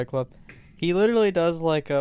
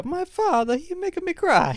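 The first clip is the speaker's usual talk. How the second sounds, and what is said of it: Exaggerated bad Italian accent. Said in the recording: “He does the worst Italian accent of all time.”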